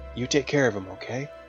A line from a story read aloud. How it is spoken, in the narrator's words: I whispered in her ear